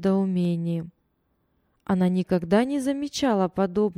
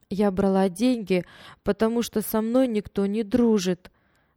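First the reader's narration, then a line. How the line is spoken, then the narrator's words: Trembling voice, girl. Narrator (Russian): дрожащим голосом объяснила девочка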